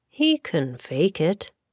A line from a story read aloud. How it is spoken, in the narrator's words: said Jack calmly